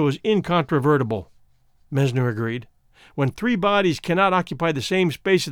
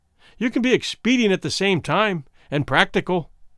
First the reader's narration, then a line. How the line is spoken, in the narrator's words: Womble said sharply